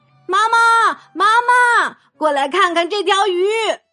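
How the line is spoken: Shout. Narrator (Chinese): 奇科开始喊

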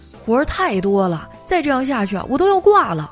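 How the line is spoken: Exasperated yelling. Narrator (Chinese): 他实在是有点绷不住了，就在办公室嚷嚷

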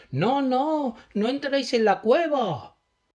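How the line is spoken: Shouted. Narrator (Spanish): gritó

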